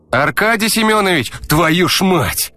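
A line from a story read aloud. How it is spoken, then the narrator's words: Startled, frightened shout. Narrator (Russian): Дернувшись на месте, выкрикнул, реально чуть не наложив штаны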